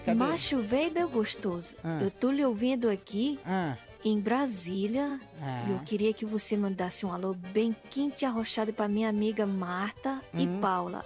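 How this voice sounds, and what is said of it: Soft, smooth voice. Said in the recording (Portuguese): “com a voz dessa macia”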